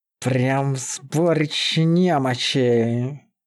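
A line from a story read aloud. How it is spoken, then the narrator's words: Displeased growl. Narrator (Russian): Недовольно рыкнул Зоул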